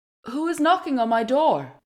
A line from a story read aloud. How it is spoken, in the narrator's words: the woman of the house, she called out